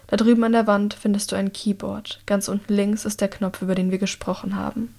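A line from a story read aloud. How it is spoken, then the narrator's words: Quiet. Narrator (German): sagt Herrick leise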